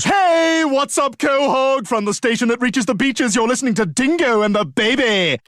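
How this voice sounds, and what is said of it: Cheesy over-the-top radio DJ voice. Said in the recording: “that radio voice, the kind of radio voice they make fun of in Family Guy a lot”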